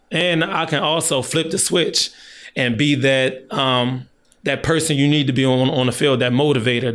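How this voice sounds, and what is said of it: Slightly hoarse voice. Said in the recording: “my voice is a little yeah, hoarse. even now”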